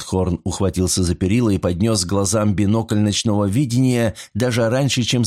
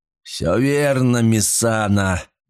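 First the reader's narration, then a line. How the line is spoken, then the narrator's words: Roared. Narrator (Russian): взревел капитан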